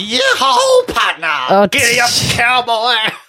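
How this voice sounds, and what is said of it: Poor exaggerated cowboy voice. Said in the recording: “terrible impersonation of Robin Williams doing a terrible impersonation of a cowboy”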